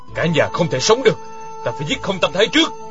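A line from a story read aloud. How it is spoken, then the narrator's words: Stern voice. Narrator (Vietnamese): Dặn Khuê nghiêm giọng nói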